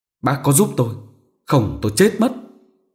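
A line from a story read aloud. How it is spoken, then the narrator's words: Trembling voice. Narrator (Vietnamese): nói bằng giọng run rẩy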